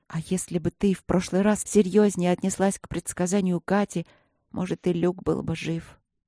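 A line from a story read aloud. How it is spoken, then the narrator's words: Quiet moan through teeth. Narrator (Russian): Я тихо застонала сквозь зубы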